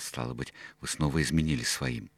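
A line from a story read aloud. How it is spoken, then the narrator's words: Indignant whisper. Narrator (Russian): Меня возмутило такое двуличие, я не удержался и прошептал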